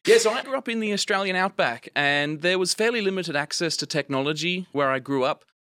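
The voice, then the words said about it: Australian accent. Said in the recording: “I grew up in the Australian outback, if you can't tell of my accent, not an American.”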